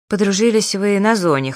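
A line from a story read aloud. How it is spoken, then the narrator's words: Snorting, wry. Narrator (Russian): хмыкнул Берсенев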